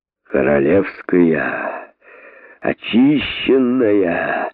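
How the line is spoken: Drunkard's exhaled words. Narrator (Russian): наконец выдохнул пьянчуга

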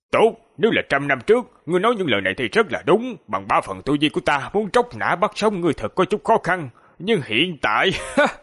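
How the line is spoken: Calm, indifferent old man. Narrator (Vietnamese): Lão giả không tức giận, ngược lại nhàn nhạt nói

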